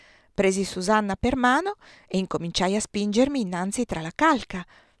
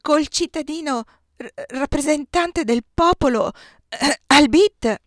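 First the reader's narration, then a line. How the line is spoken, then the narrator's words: Stammering again. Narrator (Italian): balbettò Susanna una seconda volta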